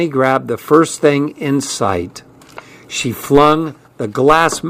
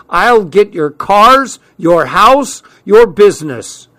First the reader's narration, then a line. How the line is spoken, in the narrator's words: shouting